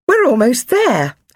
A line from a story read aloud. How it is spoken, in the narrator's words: her mum said excitedly